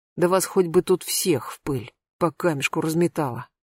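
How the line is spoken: Grumbled. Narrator (Russian): буркнул Мамонтов

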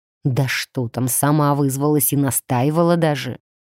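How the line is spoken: Angry, barely restrained. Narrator (Russian): зло процедил Даркан, явно с трудом сдерживаясь

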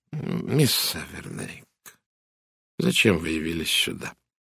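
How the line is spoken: Quiet question. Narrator (Russian): тихо спросил Пуаро

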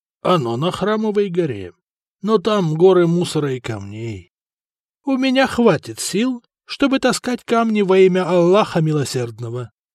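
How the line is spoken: Calm. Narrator (Russian): спокойно ответил Умар

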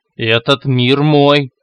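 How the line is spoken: Roared. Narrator (Russian): проревел господин

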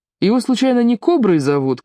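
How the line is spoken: Shout. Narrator (Russian): крикнул Тиури

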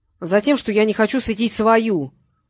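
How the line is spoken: Barked. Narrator (Russian): рявкнул Петренко

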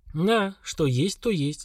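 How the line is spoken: Sighing. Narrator (Russian): вздохнул Слава

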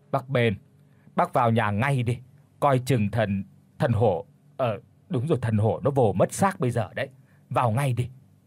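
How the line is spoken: Pained, pale stammer. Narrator (Vietnamese): Ông Sinh cảm thấy đầu đau như búa bổ, tái mặt lắp bắp

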